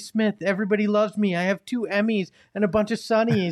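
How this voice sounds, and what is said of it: Imitates another person's voice. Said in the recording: “Is that a good impression? I tried.”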